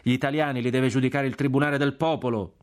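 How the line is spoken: Shout from crowd. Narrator (Italian): gridò una voce dalla folla

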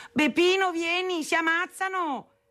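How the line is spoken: Shouting for someone. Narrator (Italian): gridava chiamando mio padre

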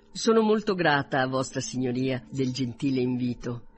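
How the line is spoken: Plain. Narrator (Italian): rispose Elizabeth

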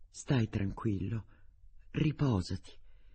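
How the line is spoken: Mother murmuring. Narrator (Italian): la mamma gli mormorò

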